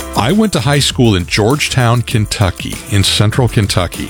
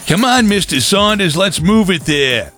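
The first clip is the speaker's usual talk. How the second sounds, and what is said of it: Yelled line in heavy accent. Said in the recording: “I can still hear him yelling ... in that really heavy accent.”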